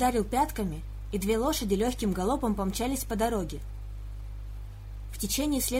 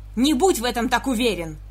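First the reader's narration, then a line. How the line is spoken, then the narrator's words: Roaring, raised voice. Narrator (Russian): взревел Винсент, впервые повысив голос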